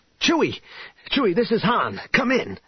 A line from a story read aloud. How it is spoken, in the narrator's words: Han had been frantically trying to raise Chewbacca on his comm link